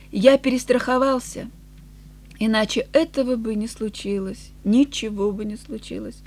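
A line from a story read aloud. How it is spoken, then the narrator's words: Sighing. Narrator (Russian): Он вздохнул и сказал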